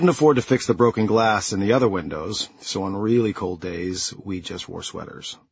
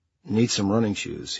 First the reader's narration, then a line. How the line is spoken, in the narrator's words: he said timidly